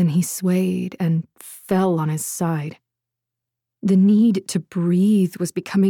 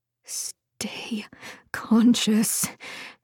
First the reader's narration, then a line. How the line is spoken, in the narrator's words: she silently pleaded